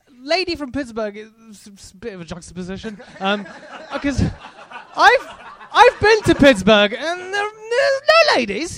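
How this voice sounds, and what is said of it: British-sounding accent. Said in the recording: “I sound like this ... I do sound British, but I am American”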